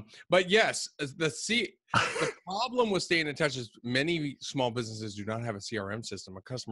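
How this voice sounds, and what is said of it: Usual voice. Nothing is said of it.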